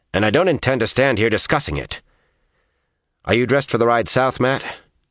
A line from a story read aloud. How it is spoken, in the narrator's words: told her sharply